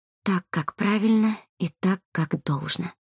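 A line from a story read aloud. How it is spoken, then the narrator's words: Whispered. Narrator (Russian): прошептала Колобкова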